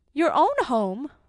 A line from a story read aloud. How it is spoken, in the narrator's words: cried his wife